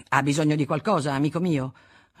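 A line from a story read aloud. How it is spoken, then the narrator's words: Brusque tone. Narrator (Italian): con tono brusco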